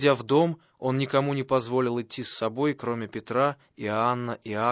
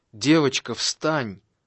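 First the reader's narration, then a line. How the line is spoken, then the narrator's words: Exclaiming. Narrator (Russian): воскликнул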